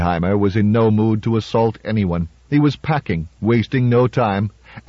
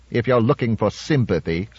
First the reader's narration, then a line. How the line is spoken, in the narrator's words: said Calvin coldly